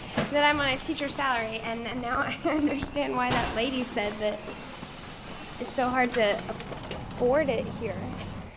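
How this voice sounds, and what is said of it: Soft, sweet Southern accent. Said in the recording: “Her soft and sweet Southern accent”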